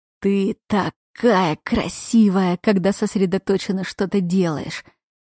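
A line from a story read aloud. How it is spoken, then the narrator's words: Affectionate purr. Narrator (Russian): промурлыкал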